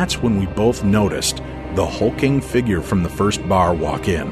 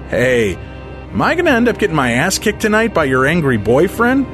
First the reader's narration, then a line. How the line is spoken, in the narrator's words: called out over the loudness